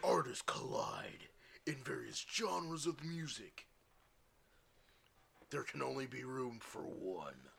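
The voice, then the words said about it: Dramatic movie trailer voice. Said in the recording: “Movie trailer voice.”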